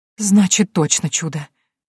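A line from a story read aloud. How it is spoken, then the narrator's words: Relieved exhale, woman. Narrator (Russian): облегченно выдохнула женщина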